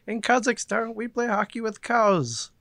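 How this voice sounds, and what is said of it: Comic Borat character voice impression. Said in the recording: “that's my Borat impression.”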